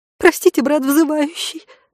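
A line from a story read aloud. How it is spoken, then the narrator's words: Trembling girl's voice. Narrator (Russian): дрожащим голосом произнесла девушка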